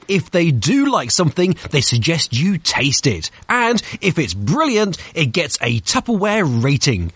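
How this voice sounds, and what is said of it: Smooth British accent. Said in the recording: “this beautiful, creamy British accent... It's like butter. It's beautiful.”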